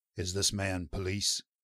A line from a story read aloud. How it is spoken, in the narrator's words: Crimp said huskily